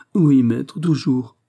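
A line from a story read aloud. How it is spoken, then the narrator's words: Whimpering. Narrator (French): pleurnicha-t-il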